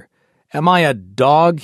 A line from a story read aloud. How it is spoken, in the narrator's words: exclaimed